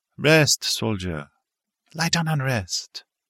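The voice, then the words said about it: Character voice with French accent. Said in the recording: “She spoke with a French accent.”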